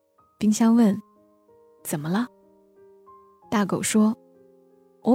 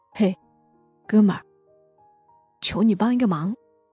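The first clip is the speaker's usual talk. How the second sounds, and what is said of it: Quiet, hushed voice. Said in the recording (Chinese): “小声的说”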